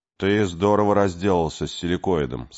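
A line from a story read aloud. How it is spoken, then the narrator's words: Plain. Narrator (Russian): сказал Артур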